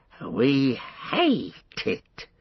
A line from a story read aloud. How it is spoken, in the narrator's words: he hissed